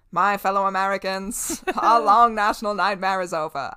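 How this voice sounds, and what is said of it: Transatlantic presidential accent impression. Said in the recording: “every president in my mind just has that, like, transatlantic accent ... The transatlantic Nixon voice, or I mean JFK voice.”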